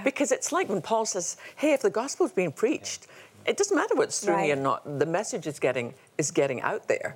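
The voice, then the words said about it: Scottish accent. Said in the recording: “your wonderful Scottish accent”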